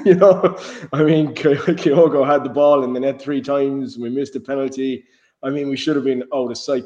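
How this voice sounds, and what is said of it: Hoarse, partly lost voice. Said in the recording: “as you can probably hear by my voice. I lost my voice last night. I have somewhat regained it today.”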